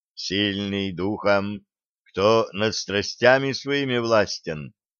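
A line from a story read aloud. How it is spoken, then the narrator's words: Quiet start. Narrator (Russian): негромко начал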